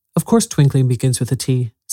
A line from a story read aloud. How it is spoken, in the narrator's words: said the king sharply